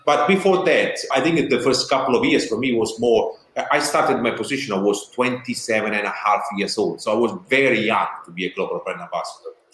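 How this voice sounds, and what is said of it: Strong southern Italian accent. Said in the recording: “with a strong Italian accent, like, you know, you're coming from south of Italy”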